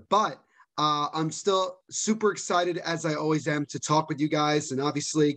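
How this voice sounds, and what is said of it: Hoarse, worn-out voice. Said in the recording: “my voice might seem a little bit down ... My voice is obviously just it's still pretty shot from the watch along, you know, doing that for 3 hours straight ... I did a little bit of yelling there as well”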